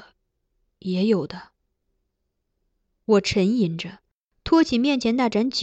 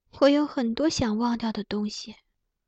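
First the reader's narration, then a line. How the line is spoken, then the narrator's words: Princess sighing. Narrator (Chinese): 公主叹道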